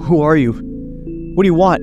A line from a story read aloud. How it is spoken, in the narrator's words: I stammered